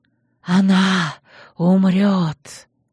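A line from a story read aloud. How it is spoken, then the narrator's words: Barely audible hiss. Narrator (Russian): Еле слышные слова с шипением вырвались из зловонного рта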